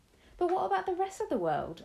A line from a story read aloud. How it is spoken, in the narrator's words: I cried